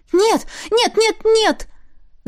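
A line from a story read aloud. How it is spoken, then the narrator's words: Frightened shout. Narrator (Russian): закричала я испуганно, надеясь прекратить это безобразие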